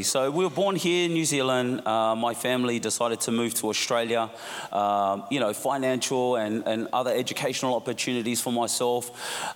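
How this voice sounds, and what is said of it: Slight Australian accent. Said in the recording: “You've got a bit of an Aussie accent”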